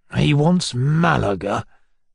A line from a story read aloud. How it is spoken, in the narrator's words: grumbled, almost aloud